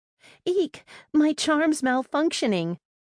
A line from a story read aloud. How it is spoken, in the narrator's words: squeaked another